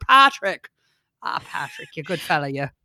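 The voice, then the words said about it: Put-on Irish accent. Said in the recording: “my Irish accent”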